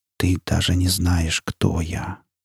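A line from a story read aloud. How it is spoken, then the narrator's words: Barely audible voice. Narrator (Russian): едва слышно произнес голос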